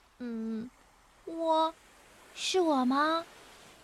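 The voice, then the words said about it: Quiet, timid questioning voice. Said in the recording (Chinese): “小声的、怯怯的问”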